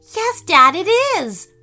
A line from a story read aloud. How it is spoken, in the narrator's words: replied Emma happily